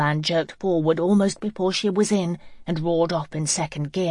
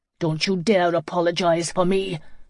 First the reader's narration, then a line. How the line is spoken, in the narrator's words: Joey spat through clenched teeth